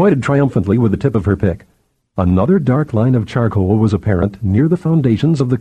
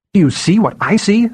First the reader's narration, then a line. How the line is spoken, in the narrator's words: Safira cried